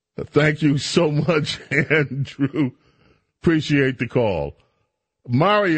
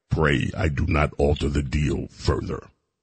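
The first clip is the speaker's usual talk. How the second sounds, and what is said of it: Deep-voiced Darth Vader impression. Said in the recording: “you have the deep voice ... I can't do Billy, but I can do my best to give you some Darth.”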